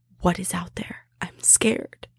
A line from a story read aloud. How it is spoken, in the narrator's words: We whispered to each other, mainly me